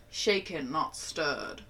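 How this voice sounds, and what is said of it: Put-on British accent. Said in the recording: “There's my British accent.”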